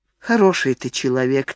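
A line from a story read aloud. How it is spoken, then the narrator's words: Quiet. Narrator (Russian): тихо сказала она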